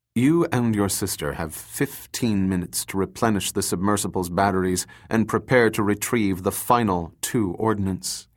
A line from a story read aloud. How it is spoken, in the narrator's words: he said calmly